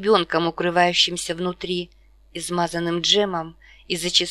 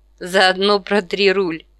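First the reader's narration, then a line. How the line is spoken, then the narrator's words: Laughing. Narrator (Russian): Аманда уже смеялась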